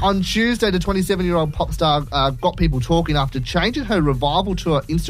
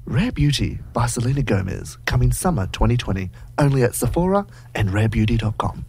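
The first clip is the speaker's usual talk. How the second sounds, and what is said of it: Advert voiceover voice. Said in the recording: “I don't know why I did that voice. ... you have a career in voiceovers and adverts.”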